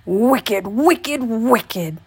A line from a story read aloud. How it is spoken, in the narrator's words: shouted the old man